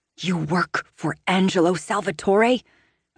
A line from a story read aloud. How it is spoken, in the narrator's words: I hiss, glowering